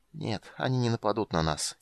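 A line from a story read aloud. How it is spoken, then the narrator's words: Quiet. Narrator (Russian): тихо сказал он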